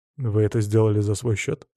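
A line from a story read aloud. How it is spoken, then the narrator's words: Calm question. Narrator (Russian): спокойно поинтересовался я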